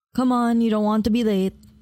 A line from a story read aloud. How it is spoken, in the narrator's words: Mommy said